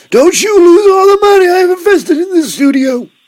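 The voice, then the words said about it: Old man voice. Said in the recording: “is that your old man voice? ... that's my man who is Warren Buffett with money”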